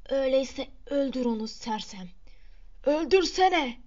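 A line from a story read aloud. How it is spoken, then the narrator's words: Crying out. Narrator (Turkish): diye haykırdı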